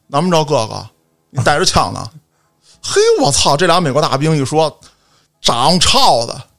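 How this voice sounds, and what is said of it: Shifting put-on accents, partly Tianjin. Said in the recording (Chinese): “口音变了 ... 一会儿天津 ... 一人一口音”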